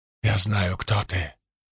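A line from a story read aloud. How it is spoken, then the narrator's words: Whisper. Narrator (Russian): прошептала Шалан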